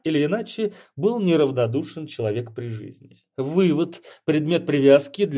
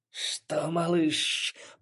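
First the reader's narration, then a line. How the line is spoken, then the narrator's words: Hissing creature. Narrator (Russian): прошипела большая летающая ящерица, бывшая недавно красивой и респектабельной женщиной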